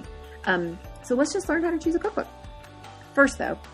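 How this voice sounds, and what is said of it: Usual voice. Nothing is said of it.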